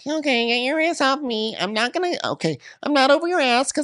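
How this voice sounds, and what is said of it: Impression of another woman's voice. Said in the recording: “I'm choking on my own Kieran impersonation. I think I have to speak like a normal person.”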